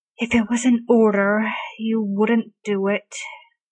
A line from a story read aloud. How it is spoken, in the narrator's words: Arthur sighs